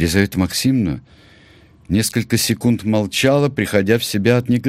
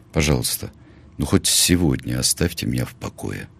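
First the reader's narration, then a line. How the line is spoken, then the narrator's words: Quiet, tired plea. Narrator (Russian): Тихо и устало Сережа попросил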